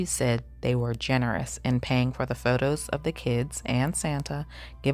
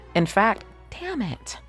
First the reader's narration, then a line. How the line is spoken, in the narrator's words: Elizabeth exclaimed in frustration